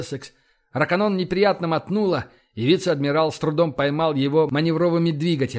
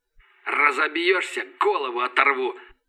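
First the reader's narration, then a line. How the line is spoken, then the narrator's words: Wheezing over the radio. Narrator (Russian): прохрипело радио голосом Рашина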